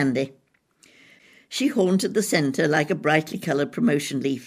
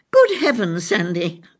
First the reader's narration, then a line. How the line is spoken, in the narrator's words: I exclaimed